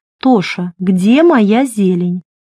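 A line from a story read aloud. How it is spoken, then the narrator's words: Demanding female question. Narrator (Russian): Марго требовательным голосом спрашивала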